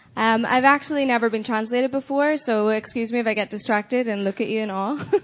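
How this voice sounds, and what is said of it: Northern Irish accent. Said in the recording (Dutch): “I'm Northern Irish ... my accent is awful”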